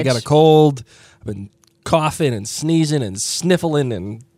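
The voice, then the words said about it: Rough, sick-sounding voice. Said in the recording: “my voice sounds like absolute hot garbage ... my voice sounds like crap”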